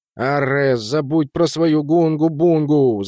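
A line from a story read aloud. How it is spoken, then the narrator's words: Loud wailing yell. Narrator (Russian): завопил Рустом Джи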